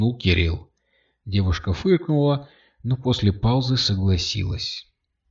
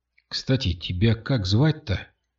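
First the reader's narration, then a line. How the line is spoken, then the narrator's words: Quiet question. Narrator (Russian): тихо спросил Кирилл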